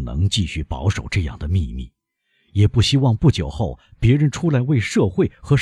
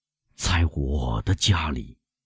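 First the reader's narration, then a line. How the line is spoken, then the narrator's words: Murmured. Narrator (Chinese): 他喃喃地说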